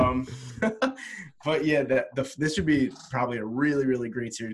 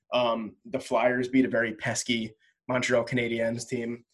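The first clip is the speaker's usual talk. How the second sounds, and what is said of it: Put-on accent on team name. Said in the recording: “Do you like the way I said Canadiens? ... Nice accent”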